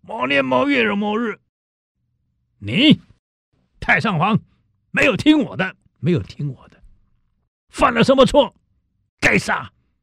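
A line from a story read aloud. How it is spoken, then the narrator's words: Loud. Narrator (Chinese): 大声道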